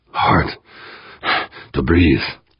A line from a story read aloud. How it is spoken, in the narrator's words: he gasped